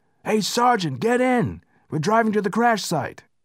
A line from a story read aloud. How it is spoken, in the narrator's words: McKnight shouted